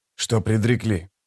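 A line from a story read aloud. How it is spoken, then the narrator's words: Whisper. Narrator (Russian): прошептал он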